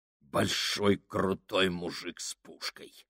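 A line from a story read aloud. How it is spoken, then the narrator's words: Grumble. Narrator (Russian): проворчал Фабрини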